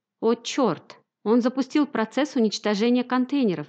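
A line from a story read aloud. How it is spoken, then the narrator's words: Shouted. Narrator (Russian): закричал капитан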